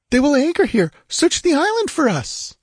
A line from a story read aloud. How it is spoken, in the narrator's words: she cried in quick panic